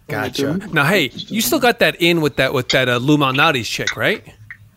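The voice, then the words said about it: New York accent. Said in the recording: “I don't know if you could tell by my accent, but I'm from New York”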